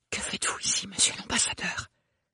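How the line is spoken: Murmured. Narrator (French): murmura Ophélie

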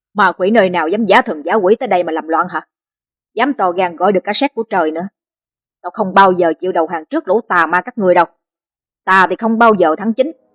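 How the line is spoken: Loud shout. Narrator (Vietnamese): Người áo đen thét lớn

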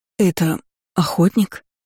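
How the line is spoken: Hoarse wheeze. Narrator (Russian): Просипела

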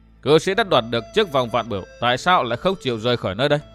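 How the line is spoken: Stern. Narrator (Vietnamese): Dương Viễn nghiêm giọng

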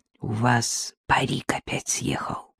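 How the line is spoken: Undertone. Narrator (Russian): Надежда вполголоса проговорила

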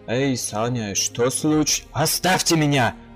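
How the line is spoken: Roar. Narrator (Russian): взревел я

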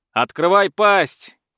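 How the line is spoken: Shouted. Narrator (Russian): крикнул Сила

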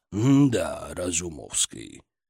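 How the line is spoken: Drawn out, genuinely surprised. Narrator (Russian): протянул он, в его голосе слышалось неподдельное удивление

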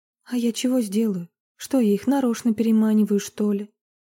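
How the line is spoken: Heavy sigh. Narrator (Russian): Марина тяжело вздохнула

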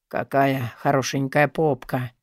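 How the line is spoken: Hoarse voice. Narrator (Russian): Хриплым голосом комментирует

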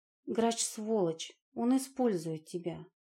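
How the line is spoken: Quiet. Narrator (Russian): тихо сказала

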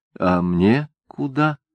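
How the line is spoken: Timid question. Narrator (Russian): робко спросила Софичка

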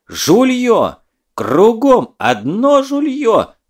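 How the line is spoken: Wailing yell. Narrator (Russian): вопил Лева

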